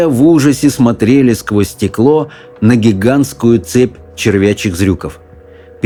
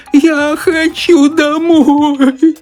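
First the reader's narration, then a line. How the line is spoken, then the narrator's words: Sobbing old woman. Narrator (Russian): рыдала бабушка Джозефина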